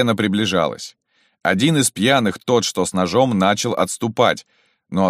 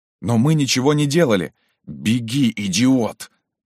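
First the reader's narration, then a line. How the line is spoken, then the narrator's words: Hissing. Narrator (Russian): прошипел парень в ватнике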